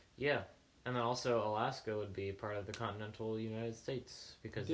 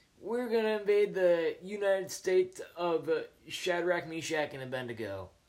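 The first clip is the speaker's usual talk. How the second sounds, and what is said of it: Imitates another person's voice, badly. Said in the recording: “That was my impression of Joe Biden, for those of you who could tell, because it was so bad.”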